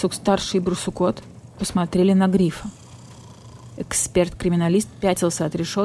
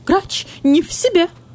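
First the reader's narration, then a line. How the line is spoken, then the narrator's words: Strange thin squeak. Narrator (Russian): каким-то чужим тонким голосом пискнул гриф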